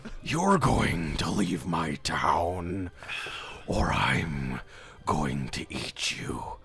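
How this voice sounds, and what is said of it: Deep menacing demon voice. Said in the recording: “That's a good demon voice.”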